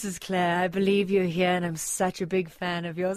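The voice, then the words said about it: Smoky, very proper imitated voice. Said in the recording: “she's got this beautiful, smoky, just like so proper voice”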